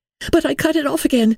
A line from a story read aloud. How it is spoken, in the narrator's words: cried hurriedly